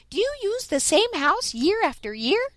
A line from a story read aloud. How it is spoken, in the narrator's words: piped up Striped Chipmunk